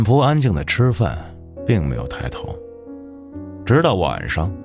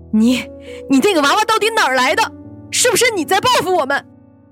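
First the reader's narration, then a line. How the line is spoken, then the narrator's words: Repeated shrieking. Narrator (Chinese): 他连声尖叫着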